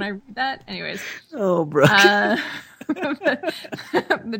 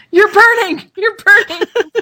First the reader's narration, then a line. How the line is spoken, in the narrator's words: a fireman shouting